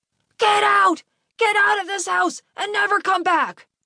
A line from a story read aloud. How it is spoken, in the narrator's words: his dad was screaming at him